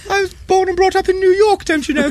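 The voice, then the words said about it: Kim Cattrall impression, posh Queen-like accent. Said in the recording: “Her accent's changed... She was talking like that to me... it was like... The Queen.”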